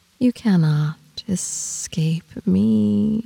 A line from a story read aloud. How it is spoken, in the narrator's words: she says